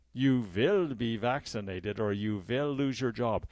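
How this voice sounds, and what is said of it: Poor put-on German accent. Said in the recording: “that's a very poor German accent”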